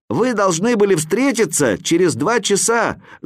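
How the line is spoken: Shouted from above. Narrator (Russian): закричал я сверху

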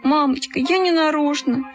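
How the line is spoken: Whimpering. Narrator (Russian): захныкала

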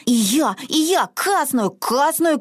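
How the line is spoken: Child shouting. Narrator (Russian): кричал малышка Мортен

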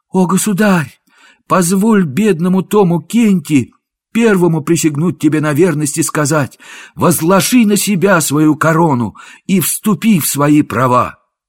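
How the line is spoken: Joyful exclamation. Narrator (Russian): Мнимый король с радостным лицом воскликнул

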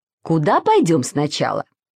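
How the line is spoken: Plain. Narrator (Russian): спросила тетя Нина

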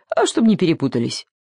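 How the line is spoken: Cheerful explanation by donkey. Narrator (Russian): весело объяснил осел

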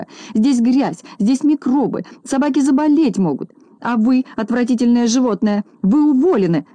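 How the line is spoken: Shouting. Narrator (Russian): закричала она

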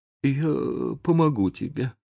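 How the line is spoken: Trembling mutter. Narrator (Russian): пробормотал Том дрожащим голосом

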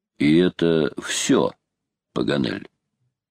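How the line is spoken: Calm voice. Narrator (Russian): майор спросил-таки своим неизменно спокойным голосом

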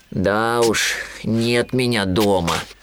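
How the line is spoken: Sighing. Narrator (Russian): вздохнул Винни

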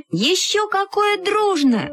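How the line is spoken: Two voices exclaiming together. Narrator (Russian): воскликнули мы с Люськой в один голос

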